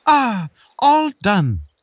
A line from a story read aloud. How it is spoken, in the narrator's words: the beetle exclaimed